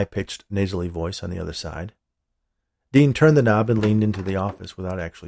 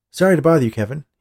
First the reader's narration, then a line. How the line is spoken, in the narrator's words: he said